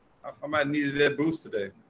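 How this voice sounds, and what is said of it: Sad, low-energy voice. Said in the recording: “He sounds really sad.”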